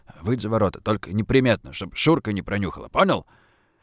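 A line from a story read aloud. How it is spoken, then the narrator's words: Gruff mutter. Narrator (Russian): Буркнул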